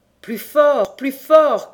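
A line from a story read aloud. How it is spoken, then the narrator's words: Shouting. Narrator (French): cria celui-ci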